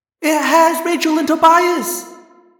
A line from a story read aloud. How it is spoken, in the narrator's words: Cassie screamed